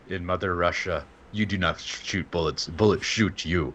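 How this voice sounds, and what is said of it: Put-on Russian accent. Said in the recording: “you have to do it in a Russian accent.”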